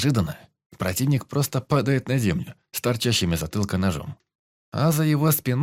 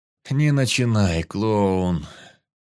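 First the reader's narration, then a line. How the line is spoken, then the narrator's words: Groaning. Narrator (Russian): Застонал я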